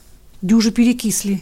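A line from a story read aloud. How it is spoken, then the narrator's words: Remarked with a sigh. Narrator (Russian): заметила и вздохнула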